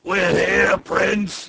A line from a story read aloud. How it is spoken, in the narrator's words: yelled